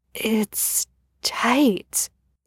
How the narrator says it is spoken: whispered

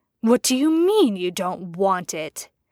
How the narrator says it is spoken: hissing

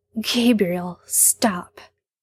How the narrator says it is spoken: Sam says, and his voice shakes

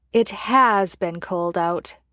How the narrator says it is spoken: Jensen countered, almost purring

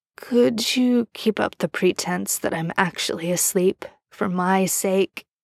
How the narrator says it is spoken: Ben says hoarsely

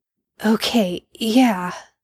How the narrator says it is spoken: Sam grunted

